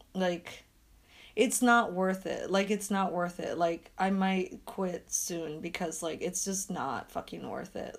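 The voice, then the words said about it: Hoarse, strained voice. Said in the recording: “my voice is shot from, like, dog walking”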